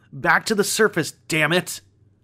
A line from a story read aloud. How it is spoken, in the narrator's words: He shouts